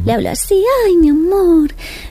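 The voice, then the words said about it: Higher-pitched pet-talk voice. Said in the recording (Spanish): “poner la voz como más aguda ... le pone una voz específica para hablar con ella”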